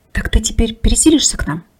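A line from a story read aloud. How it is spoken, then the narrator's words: Whisper in the ear. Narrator (Russian): прошептал он ей на ушко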